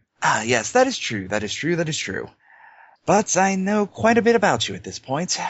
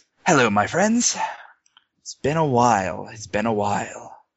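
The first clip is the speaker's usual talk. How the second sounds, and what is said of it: Clipped nobleman's accent, slightly roughened. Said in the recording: “he speaks in a clipped nobleman's accent that's been somewhat roughened around the edges by his time around pirates”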